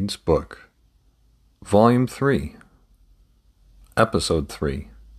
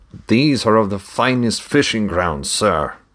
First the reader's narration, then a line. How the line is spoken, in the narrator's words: the other voice exclaimed